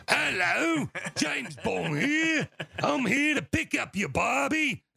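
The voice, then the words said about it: Bad fake British accent, sounds Australian. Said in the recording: “the worst fake British accent of all time ... It's more Australian again.”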